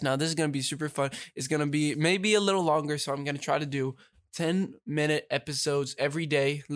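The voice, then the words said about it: Congested, stuffy-nosed voice. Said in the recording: “my voice is a little weird because I do have a cold, so that's why like my nose is”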